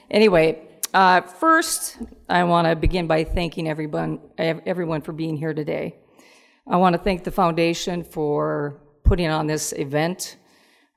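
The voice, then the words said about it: Slightly hoarse voice. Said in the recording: “My voice is a little hoarse because yesterday I showed my team how much I really love them by yelling at them the whole practice.”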